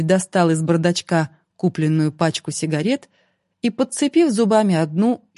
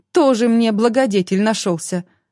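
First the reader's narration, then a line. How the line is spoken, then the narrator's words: Indignant gasp. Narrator (Russian): возмущенно охнула девушка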